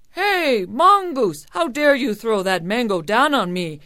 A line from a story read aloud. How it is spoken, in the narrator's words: Kabayan cried